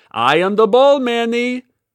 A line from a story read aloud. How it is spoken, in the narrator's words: she shouted